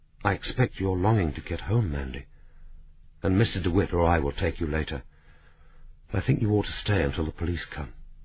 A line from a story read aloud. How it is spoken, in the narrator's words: said gently